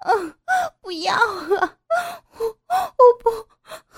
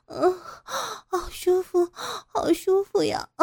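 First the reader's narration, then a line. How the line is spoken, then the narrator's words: Breathy panting. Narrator (Chinese): 傅菊英娇喘着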